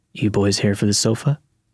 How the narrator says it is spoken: said in a gravelly voice that sounded like he needed to cough but couldn't get it out

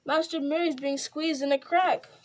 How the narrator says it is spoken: cried Sam

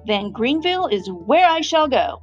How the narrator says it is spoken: announced Santa loudly

